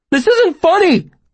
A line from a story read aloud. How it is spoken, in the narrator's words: I shouted